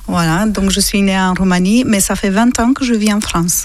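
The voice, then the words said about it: Slight Romanian accent in French. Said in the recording (French): “ils entendent ta voix avec un petit accent qui nous vient d'où? ... ce petit accent vient de la Roumanie.”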